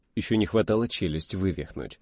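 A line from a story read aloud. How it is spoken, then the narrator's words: Grim smirk. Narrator (Russian): мрачно усмехнулся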